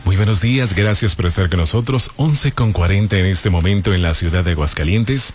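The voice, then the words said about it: Formal radio announcer voice. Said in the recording (Spanish): “hable con su voz de locutor”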